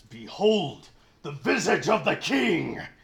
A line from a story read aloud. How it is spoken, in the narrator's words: yells